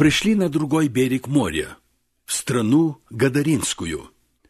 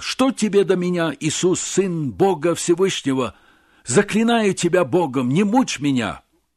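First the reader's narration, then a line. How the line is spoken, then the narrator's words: Loud cry. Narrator (Russian): вскричав громким голосом, сказал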